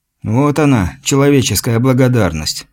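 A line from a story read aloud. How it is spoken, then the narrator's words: Sighing. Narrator (Russian): вздохнул славянин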